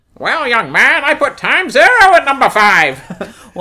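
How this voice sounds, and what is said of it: Imitates a TV character's voice. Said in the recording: “you do a great Guinan impersonation”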